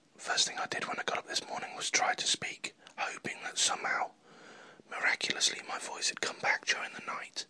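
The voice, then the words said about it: Whispering, voice almost gone. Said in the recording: “I'm whispering. ... I'm really whispering because my voice is pretty much completely gone.”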